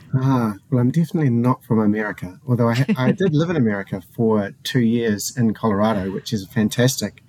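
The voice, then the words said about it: New Zealand accent. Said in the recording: “your accent. It's such a lovely accent ... I'm a New Zealander”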